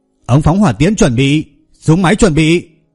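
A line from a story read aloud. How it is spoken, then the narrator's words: Shouted command. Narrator (Vietnamese): Hoàng Quang Minh hét lớn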